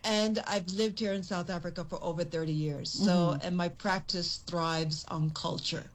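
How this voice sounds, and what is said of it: American accent. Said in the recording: “you do hear the American accent, but I'm Jamaican American ... me even carrying this accent”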